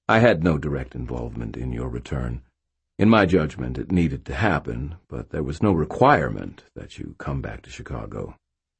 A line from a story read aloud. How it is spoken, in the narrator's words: Uriel said calmly